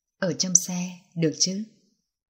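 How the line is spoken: Soft breathy whisper. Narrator (Vietnamese): thiếu niên kia nhẹ nhàng thổi hơi nóng bên tai nàng

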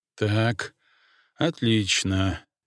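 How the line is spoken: Quiet. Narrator (Russian): негромко произнес Игнатьев

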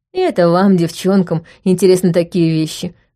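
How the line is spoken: Snorting. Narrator (Russian): хмыкнул Роб

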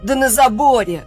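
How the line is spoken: Shout from behind cabinets. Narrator (Russian): выкрикнул из-за шкафов рыжий

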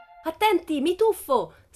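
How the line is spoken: Shrieked. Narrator (Italian): strillò

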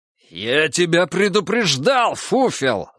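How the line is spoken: Roaring. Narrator (Russian): взревел санитар Егор

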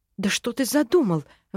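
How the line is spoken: Female exclamation. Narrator (Russian): воскликнула

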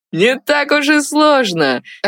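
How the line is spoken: Laughing. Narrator (Russian): рассмеялся второй юноша, которого звали Игбар

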